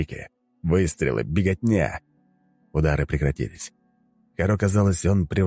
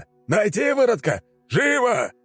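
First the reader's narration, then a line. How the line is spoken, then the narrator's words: Howled. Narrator (Russian): Твин взвыла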